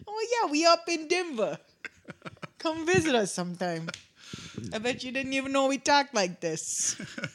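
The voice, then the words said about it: Put-on exaggerated Denver accent. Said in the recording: “The classic Denver accent.”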